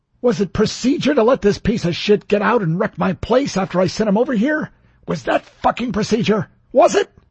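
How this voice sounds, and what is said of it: Furious, explosive shouting. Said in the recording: “did a good impression of a man about to explode with fury”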